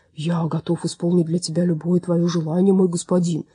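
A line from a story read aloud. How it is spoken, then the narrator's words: Deep rumbling bass. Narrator (Russian): пророкотал он густым басом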